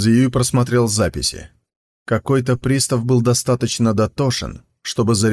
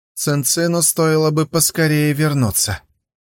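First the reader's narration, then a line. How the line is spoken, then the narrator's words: Sigh. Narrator (Russian): вздохнул Хуманзы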